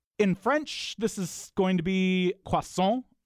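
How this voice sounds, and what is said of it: Good French accent. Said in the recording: “you do the French accent quite nicely”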